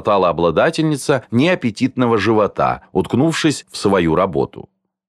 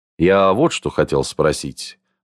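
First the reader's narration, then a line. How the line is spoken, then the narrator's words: Displeased, reproachful tone. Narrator (Russian): произнес таким недовольным тоном, как будто она перед ним провинилась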